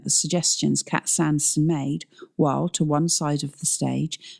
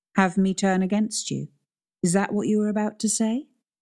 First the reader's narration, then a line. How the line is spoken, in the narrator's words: asked Cat Sanderson, her voice still steady but a little more strident now